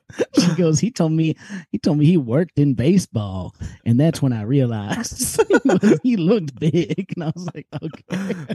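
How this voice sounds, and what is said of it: Strong regional Cincinnati-area accent. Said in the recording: “This is a wild accent to hear because I've spent a lot of time in Cincinnati.”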